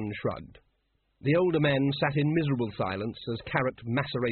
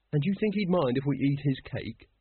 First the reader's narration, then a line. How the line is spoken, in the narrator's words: said Carrot wistfully